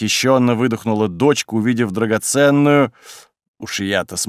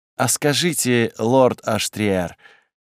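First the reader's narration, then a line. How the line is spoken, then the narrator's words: Daughter's purr. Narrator (Russian): мурлыкнула моя дочь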